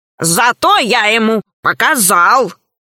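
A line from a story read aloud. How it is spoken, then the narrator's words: Embarrassed growl. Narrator (Russian): смущенно прорычал Громозека, который не любит признаваться в собственных ошибках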